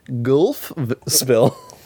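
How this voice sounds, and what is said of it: Goofy silly voice. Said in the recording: “I gotta do a goofy voice.”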